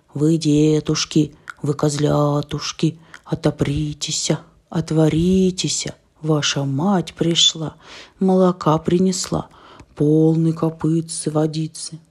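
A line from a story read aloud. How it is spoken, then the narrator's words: Wolf's deep shout. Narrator (Russian): волк закричал толстым голосом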